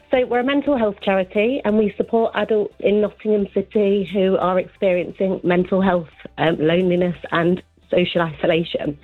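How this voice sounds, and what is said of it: Nervous, quivering voice. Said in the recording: “Sorry, I'm a little bit nervous. My voice is quivering.”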